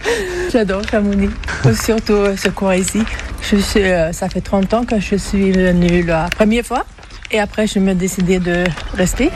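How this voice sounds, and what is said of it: Swedish accent speaking French. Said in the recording (French): “d'où vous vient cet accent? ... Suédoise.”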